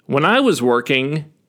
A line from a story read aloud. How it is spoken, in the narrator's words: he says